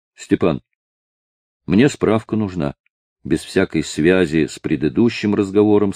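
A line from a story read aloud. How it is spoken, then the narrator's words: Plain. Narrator (Russian): сказал Павлик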